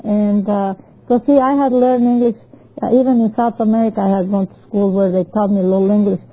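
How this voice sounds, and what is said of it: Spanish-accented English. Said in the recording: “I pronounced it the way it was written, and like I would do it in Spanish. So it didn't sound the same... my accent. I don't think I ever lost the accent.”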